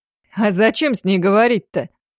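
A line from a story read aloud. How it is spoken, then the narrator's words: Sincerely puzzled, then vulgar chuckle. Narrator (Russian): Вполне искренне не понял, а затем пошловато хохотнул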